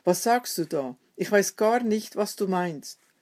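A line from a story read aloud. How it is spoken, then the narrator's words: Call. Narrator (German): rief er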